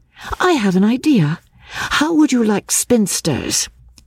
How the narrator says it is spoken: she exclaimed

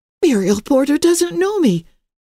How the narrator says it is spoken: gasped Emily

